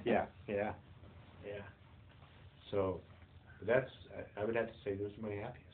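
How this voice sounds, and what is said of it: Teary, emotional voice. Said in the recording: “little teary”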